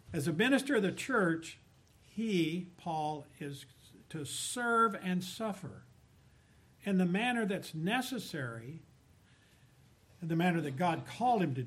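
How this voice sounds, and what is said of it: Southern American accent. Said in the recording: “my southern dialect and accent”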